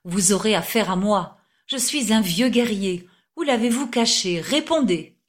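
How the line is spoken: Exclamation. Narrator (French): s'écrie-t-il

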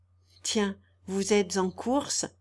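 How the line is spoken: Faint smile. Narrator (French): dit-il en souriant faiblement

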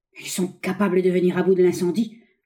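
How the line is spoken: Angry grumbling. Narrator (French): grommelait-il avec rage

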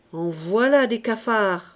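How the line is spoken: Grumbled. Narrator (French): grogna

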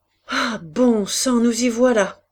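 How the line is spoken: Shouting. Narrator (French): cria Jean

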